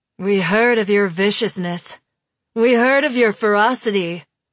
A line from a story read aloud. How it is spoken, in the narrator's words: says, in a deep, melodious voice that might be female